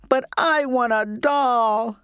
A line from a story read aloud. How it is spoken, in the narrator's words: I sobbed